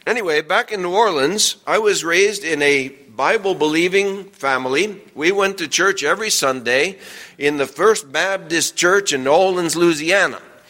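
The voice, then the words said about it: New Orleans accent. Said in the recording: “Maybe y'all can't tell from my accent, but I'm not native to here in New Jersey. I had to adjust myself to speaking like y'all do”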